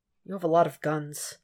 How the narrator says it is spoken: Red mumbles, prodding for answers

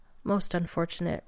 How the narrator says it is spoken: Radek murmurs

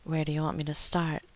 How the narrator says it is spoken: he breathed in John's ear

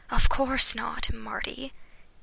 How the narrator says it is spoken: Emmett sighed, grinning

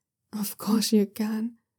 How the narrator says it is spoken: the clown says breathlessly

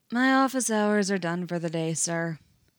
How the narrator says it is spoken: Fox says blandly

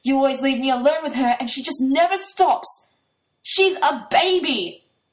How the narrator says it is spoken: Toya yells back

